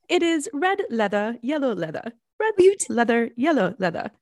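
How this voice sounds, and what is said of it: Put-on British accent. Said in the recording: “did it in a British accent, and I really like that. And so I'm going to do it that way.”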